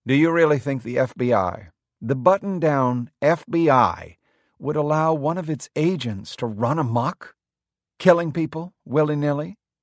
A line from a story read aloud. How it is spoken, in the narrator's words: She spoke calmly, her voice cool and rational